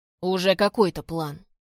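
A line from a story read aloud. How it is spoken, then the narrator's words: Grumble. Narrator (Russian): проворчал Гордей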